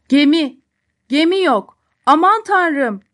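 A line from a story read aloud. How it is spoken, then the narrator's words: Several voices start shouting. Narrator (Turkish): diye bağırmaya başladılar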